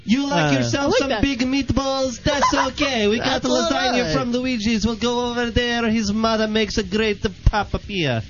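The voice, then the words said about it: Put-on Italian accent. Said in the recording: “I've got an Italian accent for you.”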